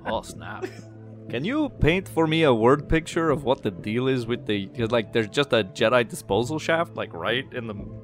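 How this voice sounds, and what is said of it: Speaks in a put-on character voice. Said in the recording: “doing this character voice”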